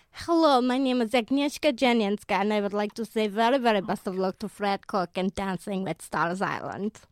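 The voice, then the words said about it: Put-on Polish accent. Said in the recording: “how did you perfect this accent? Like, did you have a mate who was Polish, or were you working with a Polish girl?”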